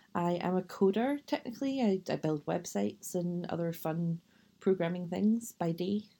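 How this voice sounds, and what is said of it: Scottish accent, west of Scotland. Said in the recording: “The accent probably gives it away, but I am from Scotland, from the west of Scotland originally”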